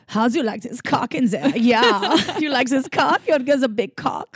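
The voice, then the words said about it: Put-on German accent. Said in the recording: “Now do it in German accent.”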